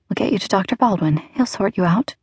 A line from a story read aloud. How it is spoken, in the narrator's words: murmured